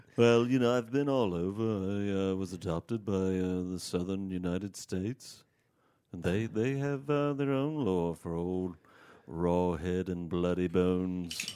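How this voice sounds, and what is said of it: Northern English accent. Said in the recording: “Northern Britain. Okay. Near Liverpool. ... should have picked up on that from the accent.”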